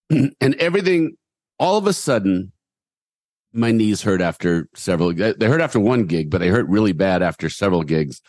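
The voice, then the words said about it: Slightly hoarse, tired voice. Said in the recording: “I'm a little hoarse today. I think it's more tired horse than overused horse.”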